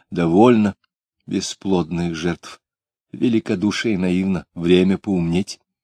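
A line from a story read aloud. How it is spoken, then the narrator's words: Quiet but commanding. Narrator (Russian): Тихо, но так, что все замолчали, сказала она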